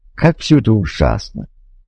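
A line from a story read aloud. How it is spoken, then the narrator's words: Sighing. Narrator (Russian): Мартин вздохнул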